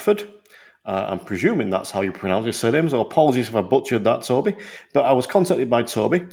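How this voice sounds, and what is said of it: Usual voice. Nothing is said of it.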